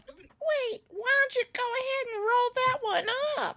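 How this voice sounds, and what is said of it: Betty White impression. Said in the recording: “my Betty White impersonation ... It's not very good”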